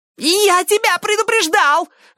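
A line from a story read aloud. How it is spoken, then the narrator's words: Shrill squeal. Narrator (Russian): взвизгнул потрошитель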